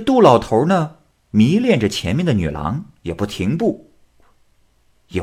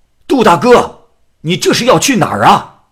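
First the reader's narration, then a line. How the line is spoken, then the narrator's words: Loud call from behind. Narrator (Chinese): 张某就在后面大声的叫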